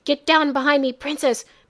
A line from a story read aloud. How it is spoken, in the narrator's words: Master Aiku gasped